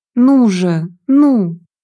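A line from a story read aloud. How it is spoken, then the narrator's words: Groaning. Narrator (Russian): простонал он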